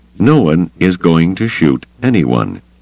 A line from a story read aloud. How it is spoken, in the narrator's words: he said flatly